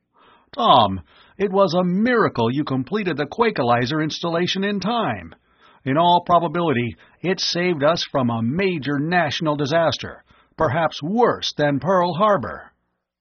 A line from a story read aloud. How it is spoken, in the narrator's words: Miles exclaimed